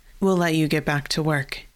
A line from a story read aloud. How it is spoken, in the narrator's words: he said